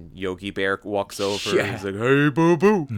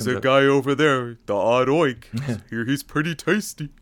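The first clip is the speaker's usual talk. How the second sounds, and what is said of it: Cartoon bear character voice. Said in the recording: “that's a pretty good impression”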